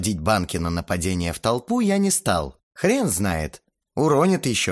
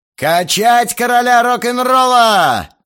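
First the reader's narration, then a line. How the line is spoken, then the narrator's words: Joyful roar. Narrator (Russian): жизнерадостно взревел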